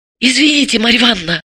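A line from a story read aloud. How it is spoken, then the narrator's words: Whisper. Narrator (Russian): прошептала она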